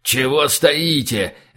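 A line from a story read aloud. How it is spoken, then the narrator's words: Barking snap. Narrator (Russian): рявкнул Либерий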